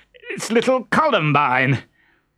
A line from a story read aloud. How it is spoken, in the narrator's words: wailed